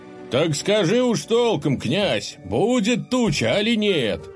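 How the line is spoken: Shouting from a crowd. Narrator (Russian): снова закричали из толпы

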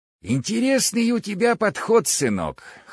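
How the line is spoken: Hoarse. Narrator (Russian): хриплым голосом сказал он мне

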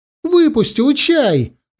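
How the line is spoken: Shouting. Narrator (Russian): закричал

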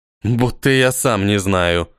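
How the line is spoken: Girl grumbling. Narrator (Russian): проворчала девушка

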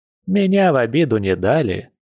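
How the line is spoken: Cheerful. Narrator (Russian): весело ответила баба Эля

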